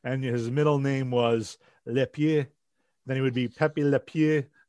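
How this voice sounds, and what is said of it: Bad put-on French accent. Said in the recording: “that's my horrible French accent”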